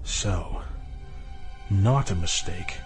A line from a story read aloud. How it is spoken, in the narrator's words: Sasha finished quietly